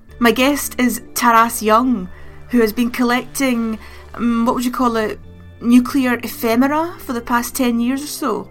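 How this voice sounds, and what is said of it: Scottish accent. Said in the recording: “a Scottish accent ... He has one too. So you're stuck with Scottish nuclear nerds.”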